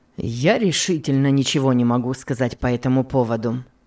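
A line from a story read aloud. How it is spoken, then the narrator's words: Plain reply. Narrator (Russian): ответил мистер Шелби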